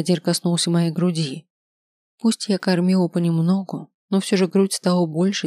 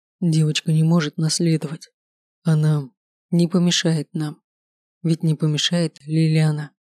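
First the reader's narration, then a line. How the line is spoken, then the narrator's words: Muffled voice, king. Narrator (Russian): Король глухо сказал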